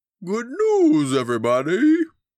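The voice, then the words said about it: Poor impression of Professor Farnsworth. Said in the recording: “my terrible Hubert Farnsworth impression”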